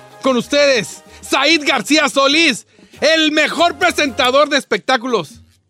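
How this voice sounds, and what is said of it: Announcer voice. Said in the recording (Spanish): “te voy a presentar con esta voz esta voz de locutor.”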